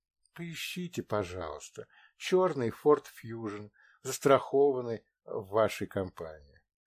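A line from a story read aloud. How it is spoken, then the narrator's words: Quiet request. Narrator (Russian): Я тихо попросила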